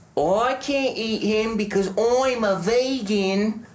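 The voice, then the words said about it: Bad put-on Australian accent. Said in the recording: “let me do an Australian accent here... That's how her voice sounds to me when she's doing this. Like, as bad as that.”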